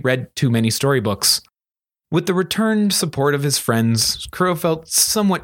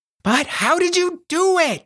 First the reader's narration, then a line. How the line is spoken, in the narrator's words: she demanded excitedly